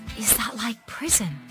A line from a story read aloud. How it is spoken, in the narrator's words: I whispered, terrified